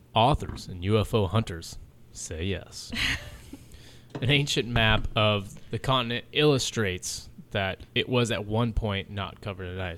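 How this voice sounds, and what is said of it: Mock Ancient Aliens narrator voice. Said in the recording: “In my ancient alien voice,”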